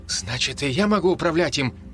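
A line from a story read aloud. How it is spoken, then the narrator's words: Excited exclamation. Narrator (Russian): восторженно воскликнул Харл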